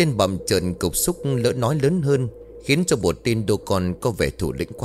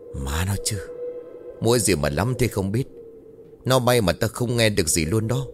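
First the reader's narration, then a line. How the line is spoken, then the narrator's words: Soft hushed voices. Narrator (Vietnamese): vang lên những giọng nói khẽ khẽ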